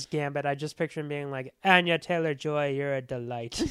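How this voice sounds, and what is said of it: Imitated voice, slightly Irish-sounding. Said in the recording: “you slightly slipped into an Irish accent there ... I was trying to do his voice ... somehow you're still sounding slightly Irish ... he sounds like he's doing Michael Caine”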